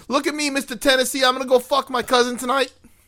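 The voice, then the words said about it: Poor New York accent, sounds British. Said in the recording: “I can do New York ... That was like a British... like a more British than New York ... it was terrible”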